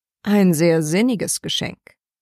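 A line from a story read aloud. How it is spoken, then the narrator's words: Dry reply. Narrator (German): entgegnete Hatto trocken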